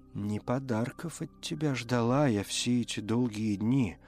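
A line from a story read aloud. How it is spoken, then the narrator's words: Hollow, muffled voice. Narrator (Russian): произнесла она глухо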